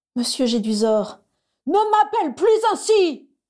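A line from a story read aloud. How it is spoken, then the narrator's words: Screamed. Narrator (French): Il avait hurlé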